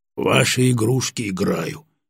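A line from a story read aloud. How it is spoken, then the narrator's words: Angry mutter. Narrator (Russian): сердито буркнул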